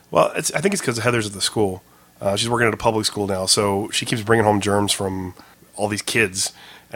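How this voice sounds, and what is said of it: Hoarse, strained voice from illness. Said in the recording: “my voice is a little bit shot. I've been sick again”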